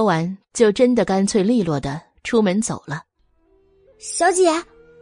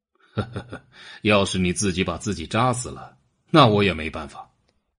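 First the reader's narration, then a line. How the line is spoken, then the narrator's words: Pause, light laugh. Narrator (Chinese): 他顿了顿，笑了一下，说道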